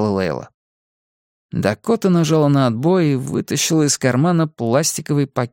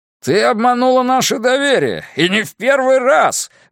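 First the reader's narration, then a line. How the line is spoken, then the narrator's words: Yelling. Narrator (Russian): вопил он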